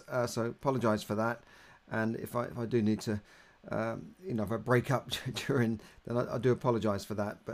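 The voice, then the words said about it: Hoarse voice. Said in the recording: “My voice is still a little bit hoarse”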